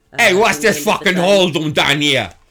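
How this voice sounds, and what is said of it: Put-on Boston accent. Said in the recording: “probably like someone from Boston... Bostonian accents”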